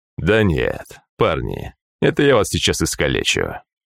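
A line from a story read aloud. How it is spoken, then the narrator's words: Smirking snort. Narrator (Russian): хмыкнул Тапок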